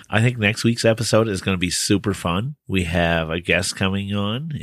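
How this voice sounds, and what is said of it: Slightly raspy voice. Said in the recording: “my voice is a little bit raspy ... it's been smoky here”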